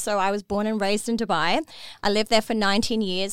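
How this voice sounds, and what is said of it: Speaks with a noticeable foreign accent. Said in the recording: “especially with my accent, some people might be like, where is this chick from?”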